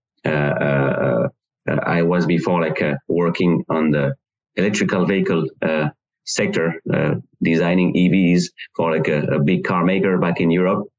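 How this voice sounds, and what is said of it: French-accented English. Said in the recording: “like, as you hear, like, the strange accent. So I'm from France”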